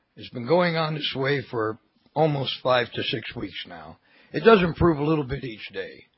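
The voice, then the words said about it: Rough, gravelly voice. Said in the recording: “my voice is still rough and gravelly. Excuse the coughing”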